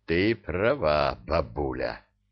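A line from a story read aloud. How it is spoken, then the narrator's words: Hoarse rasp. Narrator (Russian): прохрипел Илья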